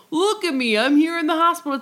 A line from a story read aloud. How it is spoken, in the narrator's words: is laughing and, like, joking